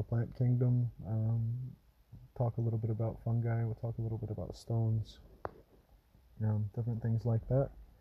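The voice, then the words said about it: Odd, blended shifting accent. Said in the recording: “my accent is a little bit odd. My accent will change when I talk about different things ... my accent sort of started to blend in with”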